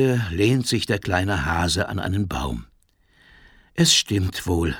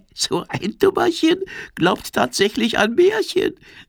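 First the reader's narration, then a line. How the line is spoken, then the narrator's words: Giggling. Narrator (German): kichert die Libelle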